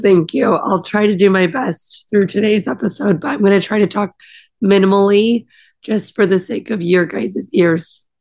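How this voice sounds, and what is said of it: Raspy, scratchy voice. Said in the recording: “my voice was the first thing to go... raspy, scratchy voice. It's a little sexy.”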